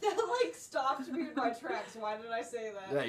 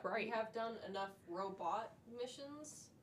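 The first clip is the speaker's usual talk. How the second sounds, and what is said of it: Says robot in a robotic voice. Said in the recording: “I don't know why I said robot like that ... you sound like a bot”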